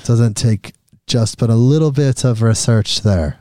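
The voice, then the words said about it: Put-on Irish accent. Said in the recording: “with my Irish accent.”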